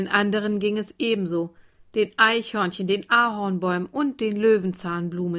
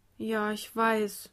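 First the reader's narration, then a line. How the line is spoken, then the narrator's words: Child answering quietly. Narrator (German): antwortete ihr Kind leise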